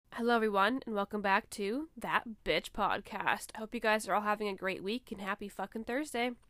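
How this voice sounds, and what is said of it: Sick-sounding voice. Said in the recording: “I'm actually sick right now, as you may be able to tell by my voice ... I do sound sick, obviously.”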